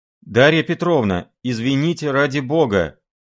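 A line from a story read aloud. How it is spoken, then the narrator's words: Flustered embarrassed shout. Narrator (Russian): опомнившись, крикнул ей вслед красный Филипп Филиппович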